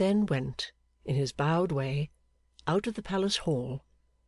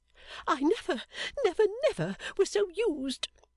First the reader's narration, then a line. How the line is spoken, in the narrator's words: she sobbed